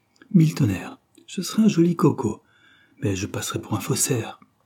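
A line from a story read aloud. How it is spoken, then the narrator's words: Exclaimed. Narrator (French): s'écria-t-il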